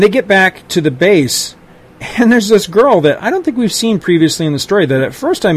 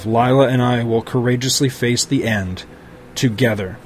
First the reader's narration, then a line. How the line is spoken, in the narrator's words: thinking quietly to himself